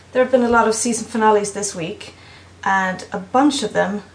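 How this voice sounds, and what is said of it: Swedish-accented English. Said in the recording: “from Sweden ... my accent sounded actually even crappier than I thought it did”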